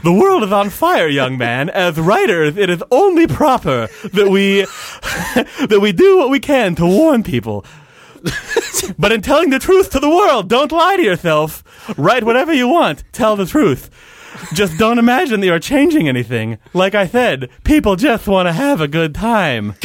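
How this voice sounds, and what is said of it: Snagglepuss cartoon character voice. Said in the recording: “Snagglepuss is saying ... Please do the voice.”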